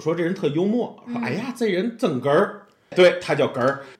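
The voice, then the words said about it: Tianjin accent. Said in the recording (Chinese): “我是天津人，这大家应该能 口音能听得出来”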